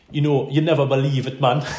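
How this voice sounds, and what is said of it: Impression of a Jamaican man. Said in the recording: “Colin uh, from Jamaica. I'll do a wee impression of him.”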